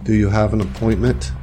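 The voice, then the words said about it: Flat, almost emotionless voice. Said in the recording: “in an almost emotionless voice”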